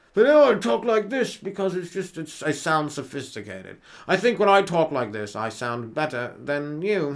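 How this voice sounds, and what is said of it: Mock posh upper-class English accent. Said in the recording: “rich English people around. And they talk in that tone of voice ... you're hammering that up just because you like the way it sounds ... Lose the accent, English guy.”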